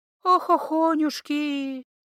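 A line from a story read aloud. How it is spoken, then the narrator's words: Sighing old healer woman. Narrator (Russian): вздохнула знахарка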